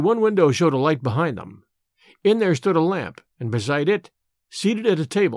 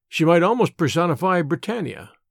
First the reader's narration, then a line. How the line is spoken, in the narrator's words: said he